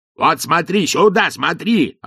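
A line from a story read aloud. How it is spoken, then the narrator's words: Yelling coachman. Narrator (Russian): орал кучер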